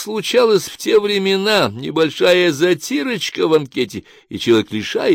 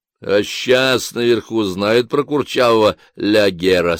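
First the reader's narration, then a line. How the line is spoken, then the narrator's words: Plain question. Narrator (Russian): спросил Хвостищев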